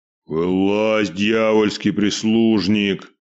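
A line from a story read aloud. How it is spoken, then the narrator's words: Deep booming bass. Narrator (Russian): пробасил здоровяк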